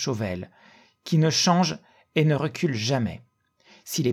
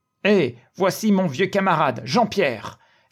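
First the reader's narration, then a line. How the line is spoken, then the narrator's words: Exclamation. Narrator (French): s'écria Maître Jean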